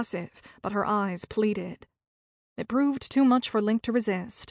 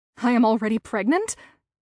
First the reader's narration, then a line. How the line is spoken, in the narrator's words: Zoe gasped in disbelief